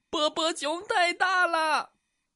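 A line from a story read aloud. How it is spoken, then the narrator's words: Little mouse crying out. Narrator (Chinese): 一只小老鼠哭喊道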